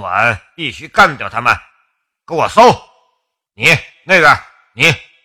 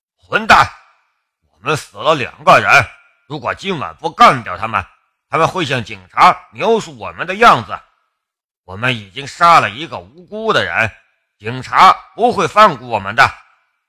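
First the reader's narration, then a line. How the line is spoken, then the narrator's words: Angry. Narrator (Chinese): 纳瓦斯怒道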